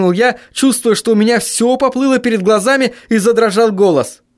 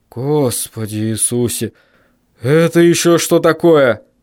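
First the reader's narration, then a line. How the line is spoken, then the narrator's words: Startled breathless gasp. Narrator (Russian): выдохнул отец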